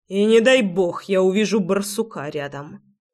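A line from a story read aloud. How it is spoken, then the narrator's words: Angry spitting. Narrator (Russian): Зло выплюнул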